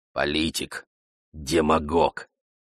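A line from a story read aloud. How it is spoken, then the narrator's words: Grumbling. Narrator (Russian): Гиос Парторг проворчал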